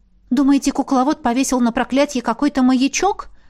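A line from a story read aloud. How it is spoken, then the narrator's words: Frightened question. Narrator (Russian): испуганно уточнила я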